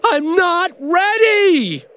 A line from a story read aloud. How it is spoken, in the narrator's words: Ben screamed